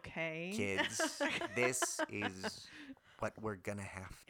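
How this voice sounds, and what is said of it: Imitates another person's voice, slowed. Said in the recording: “do an impression of Stanley Tucci ... slow your voice down ... Like, three times.”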